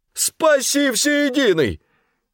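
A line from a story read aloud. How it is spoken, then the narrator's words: Shouting. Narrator (Russian): крикнул жандарм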